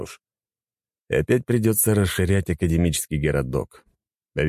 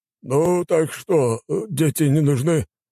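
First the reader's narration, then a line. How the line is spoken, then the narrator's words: Dwarf sighing. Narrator (Russian): вздохнул гном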